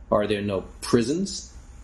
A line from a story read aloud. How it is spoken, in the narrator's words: asked Scrooge